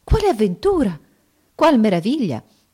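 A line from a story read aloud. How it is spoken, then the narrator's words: Amazed exclamation. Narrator (Italian): Restò assai meravigliata al vedere le ulive mischiate alla polvere d'oro, sicché esclamò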